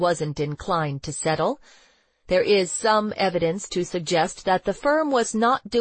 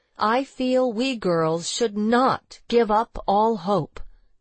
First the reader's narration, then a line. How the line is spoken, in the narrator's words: she said